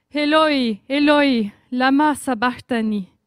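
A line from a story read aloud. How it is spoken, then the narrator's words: Loud cry. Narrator (French): Jésus s'écria d'une voix forte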